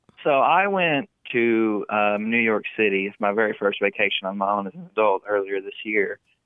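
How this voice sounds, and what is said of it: Heavy American country accent. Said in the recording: “I have a country accent ... your accent's really heavy”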